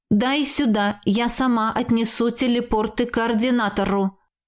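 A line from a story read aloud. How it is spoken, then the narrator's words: Growled. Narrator (Russian): Прорычала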